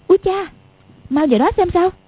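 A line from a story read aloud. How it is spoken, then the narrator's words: Exclamation. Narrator (Vietnamese): Quách Phù kêu lên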